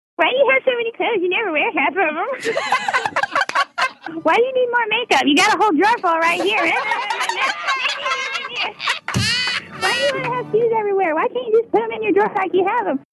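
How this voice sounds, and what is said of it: Impersonation of a spouse. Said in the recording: “listeners doing impersonations of their spouses”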